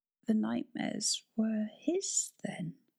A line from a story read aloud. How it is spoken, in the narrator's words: she murmured at last